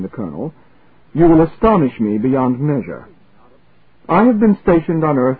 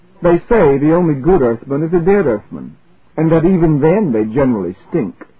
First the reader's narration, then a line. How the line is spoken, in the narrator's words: laughed immoderately